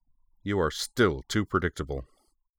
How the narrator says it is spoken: Kyuichi Sayonji said, his voice thick with anger

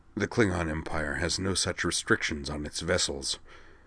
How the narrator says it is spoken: Krontep replied softly, anticipating her concern

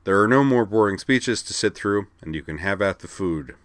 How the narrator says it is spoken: he added dryly

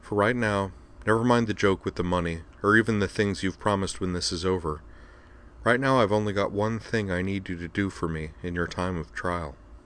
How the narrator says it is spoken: said softly

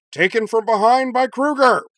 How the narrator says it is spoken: Professor Jim bellowed, disbelieving

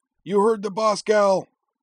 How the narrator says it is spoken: Hometown bellowed

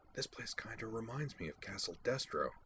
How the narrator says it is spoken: I murmured

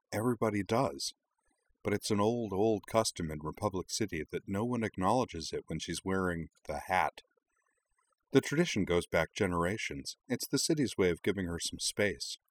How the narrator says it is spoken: Nima leaned smilingly over and explained quietly

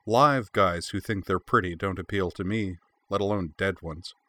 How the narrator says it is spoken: She smiled coldly and went on

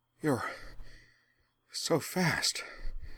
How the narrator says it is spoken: Azula gasped

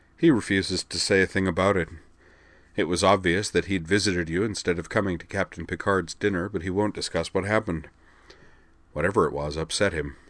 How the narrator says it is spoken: the green-haired duelist went on, his tone speculative

